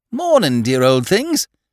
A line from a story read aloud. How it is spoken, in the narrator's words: said the newcomer cheerfully